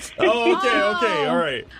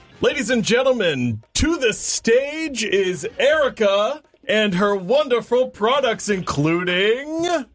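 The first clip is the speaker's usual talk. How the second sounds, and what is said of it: Game show host voice. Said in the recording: “in your best game show voice”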